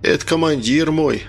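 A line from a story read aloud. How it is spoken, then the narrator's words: Exclamation. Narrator (Russian): воскликнул Сергей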